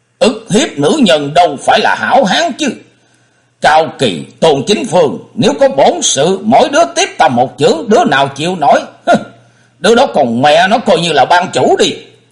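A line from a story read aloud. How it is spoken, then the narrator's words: Angry, loud. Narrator (Vietnamese): Hắn động nộ, lớn tiếng nói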